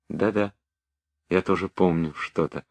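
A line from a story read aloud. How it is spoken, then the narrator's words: Timid. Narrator (Russian): робко отвечала Соня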